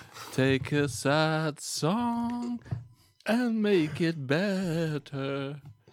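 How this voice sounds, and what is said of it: Imitates another person's singing voice, poorly. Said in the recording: “It's not a good impression.”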